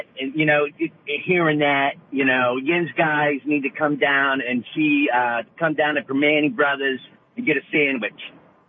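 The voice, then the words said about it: Pittsburgh accent. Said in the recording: “Can you do a Pittsburgh accent? What does a Pittsburgh accent sound like? ... Yeah, that sounds about right.”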